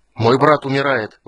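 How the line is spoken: Shouting out. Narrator (Russian): выкрикнул он

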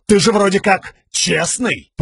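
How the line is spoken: Growled. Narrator (Russian): прорычал копейщик

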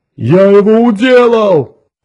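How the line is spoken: Triumphant roar. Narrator (Russian): торжествующе взревел Тикар

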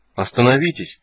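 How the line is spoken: Confused repetition. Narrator (Russian): повторил растерянно

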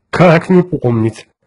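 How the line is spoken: Laughing. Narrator (Russian): рассмеялся Кертис

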